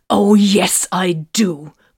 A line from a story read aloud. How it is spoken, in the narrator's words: Vox growled